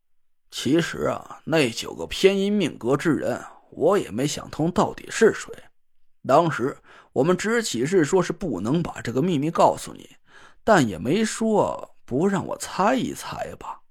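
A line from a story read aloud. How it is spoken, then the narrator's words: Mumbling. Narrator (Chinese): 潘成…嘟囔了一句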